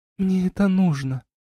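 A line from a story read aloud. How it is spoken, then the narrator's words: Sighing. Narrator (Russian): вздохнула Арна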